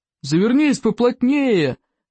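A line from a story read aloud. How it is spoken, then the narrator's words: Shout from above. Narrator (Russian): крикнул спаситель Икингу сверху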